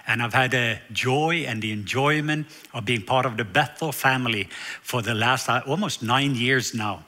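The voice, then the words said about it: Norwegian accent. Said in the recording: “as you can hear as I'm talking, I do have an accent. And it is a southern accent. And the reason is I'm from the south part of Norway.”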